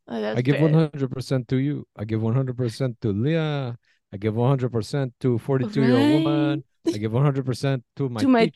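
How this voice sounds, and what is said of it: Bad put-on French accent. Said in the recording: “My best French accent. It's terrible, but.”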